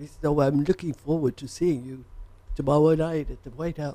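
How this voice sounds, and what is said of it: Poor impression of a politician. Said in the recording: “worst Kissinger impression I've ever heard ... It's actually more Elmer Fudd.”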